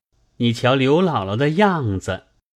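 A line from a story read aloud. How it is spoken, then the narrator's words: Laughing. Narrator (Chinese): 宝玉向黛玉笑道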